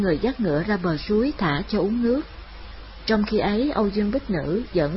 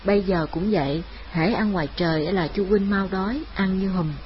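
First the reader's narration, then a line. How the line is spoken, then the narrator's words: Smiling. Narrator (Vietnamese): Lam Y mỉm cười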